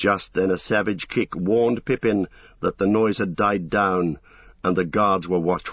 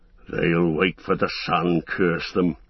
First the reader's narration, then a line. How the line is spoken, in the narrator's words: growled one of the guards